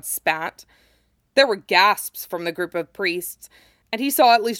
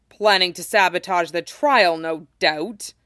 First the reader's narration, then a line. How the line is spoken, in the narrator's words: said grimly